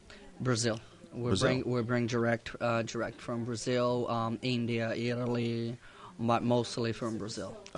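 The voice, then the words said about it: Slight Brazilian accent. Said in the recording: “I detect a slight accent. ... I'm Brazilian.”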